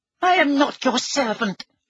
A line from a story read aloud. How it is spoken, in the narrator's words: he squeaked